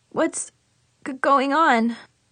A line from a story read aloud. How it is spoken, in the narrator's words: I sniffed sadly